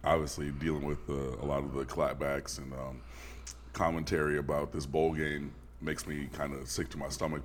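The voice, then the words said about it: Tired, slightly sick-sounding voice. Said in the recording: “Y'all can hear it in my voice. I'm tired. On the edge of getting sick.”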